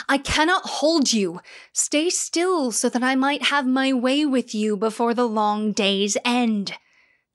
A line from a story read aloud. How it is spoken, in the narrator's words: Zeus took up his human form and roared